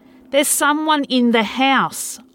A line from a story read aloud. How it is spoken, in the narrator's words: barked, with extreme adrenaline coursing through me